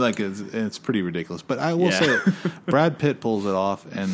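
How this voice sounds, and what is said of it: Usual voice. Nothing is said of it.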